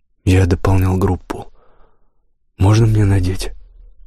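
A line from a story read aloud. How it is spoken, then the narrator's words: Forced out. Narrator (Russian): выдавил я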